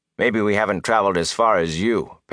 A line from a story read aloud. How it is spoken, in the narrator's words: Perrin said flatly